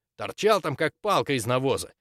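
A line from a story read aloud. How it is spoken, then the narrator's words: Indignant. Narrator (Russian): возмущенно сообщил друг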